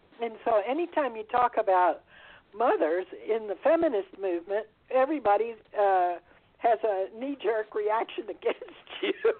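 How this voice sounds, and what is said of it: Voice giving out, strained. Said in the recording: “excuse me, I'm losing my voice, just a second.”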